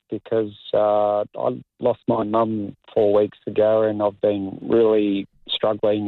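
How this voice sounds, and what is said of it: Sad, grieving voice. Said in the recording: “I can almost hear the grief in your voice.”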